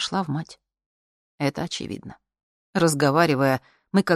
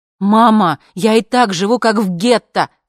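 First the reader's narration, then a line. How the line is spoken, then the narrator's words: Shouting. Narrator (Russian): кричала я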